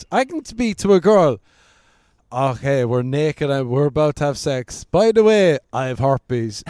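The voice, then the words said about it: Speaks with a noticeable accent. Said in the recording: “you say it with that accent, it just sounds. ... I can say anything with my accent.”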